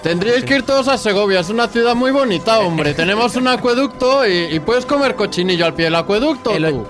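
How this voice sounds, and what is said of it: Exaggerated Segovian Spanish accent. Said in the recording (Spanish): “acento segoviano puro”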